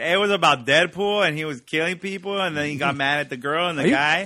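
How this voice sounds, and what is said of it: Put-on Mexican Spanish accent. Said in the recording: “That was a little Mexican kind of Spanish accent... Spanish-y”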